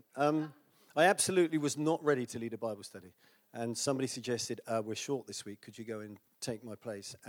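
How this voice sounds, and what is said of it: British accent. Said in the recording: “It's in British. ... excuse my accent.”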